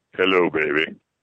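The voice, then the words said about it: Put-on deep voice. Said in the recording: “My deep voice ... I know she likes your deep voice.”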